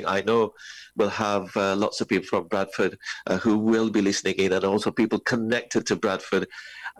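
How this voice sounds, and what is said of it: Northern English accent. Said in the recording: “I'm loving the accent. Brother, the northern accent. I absolutely love the northern accent.”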